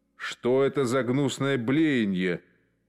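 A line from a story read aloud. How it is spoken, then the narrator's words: Grumbled. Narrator (Russian): пробурчал второй комендант лагеря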